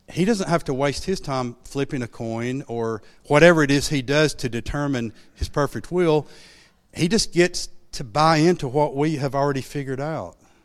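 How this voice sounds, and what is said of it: Sarcastic tone. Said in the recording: “I'm holding up a sarcasm sign ... that was sarcasm.”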